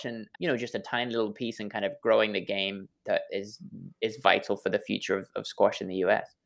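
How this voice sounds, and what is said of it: English accent. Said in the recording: “my silly English accent”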